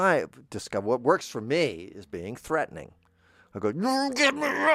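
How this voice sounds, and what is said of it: Usual voice. Nothing is said of it.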